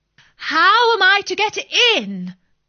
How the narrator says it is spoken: said Alice in a louder tone

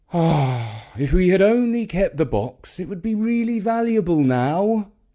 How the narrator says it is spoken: thought with a sigh

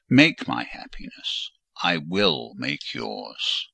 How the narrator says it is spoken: said he, and added in his deepest tone, speaking in my ear

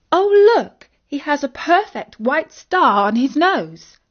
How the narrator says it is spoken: exclaimed Isis

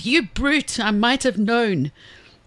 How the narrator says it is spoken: Pig cried

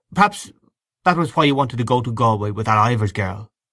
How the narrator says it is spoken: he said coldly

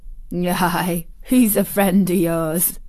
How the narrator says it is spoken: chuckled Dickon

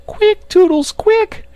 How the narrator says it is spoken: screamed

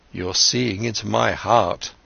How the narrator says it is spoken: Siddhartha spoke sadly

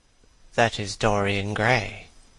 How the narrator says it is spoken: He heard one of them whisper to the other

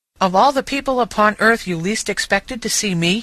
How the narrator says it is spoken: he said

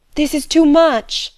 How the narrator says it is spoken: she cried

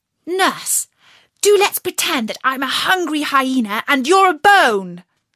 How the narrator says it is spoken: shouting suddenly in her ear

